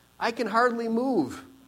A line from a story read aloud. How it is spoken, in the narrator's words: he exclaimed